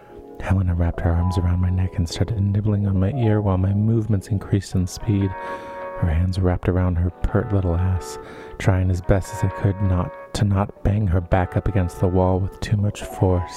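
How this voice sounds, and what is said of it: Sexy, husky reading voice. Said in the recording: “put on the sexy voice for that one ... my voice is a bit huskier today ... post-nasal drip ... my throat is phlegmy”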